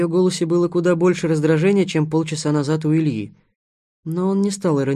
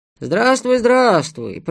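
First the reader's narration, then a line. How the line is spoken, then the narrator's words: Old man mumbling on phone. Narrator (Russian): пробормотал старик на том конце провода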